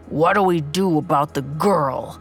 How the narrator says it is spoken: the man growled

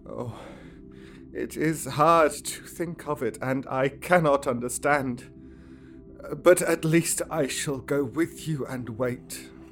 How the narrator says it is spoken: said in a broken voice

